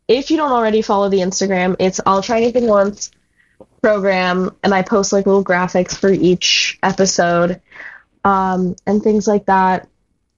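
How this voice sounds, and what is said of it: Raspy, partly lost voice. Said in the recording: “my voice is like half gone ... has made me sound a little raspy.”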